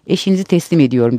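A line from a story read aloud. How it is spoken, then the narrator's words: Cheerful male voice. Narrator (Turkish): Adam neşeli bir sesle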